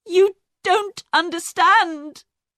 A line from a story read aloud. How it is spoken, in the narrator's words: she cried